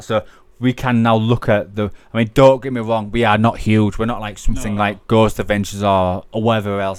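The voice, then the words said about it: Regional Hull accent. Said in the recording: “We live in Hull. If you took Hull out of the way from me, you won't get this dodgy accent.”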